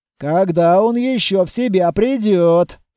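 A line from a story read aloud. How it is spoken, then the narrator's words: Grumbling. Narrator (Russian): проворчал Толяныч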